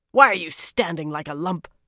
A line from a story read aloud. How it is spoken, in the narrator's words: Samarin snarled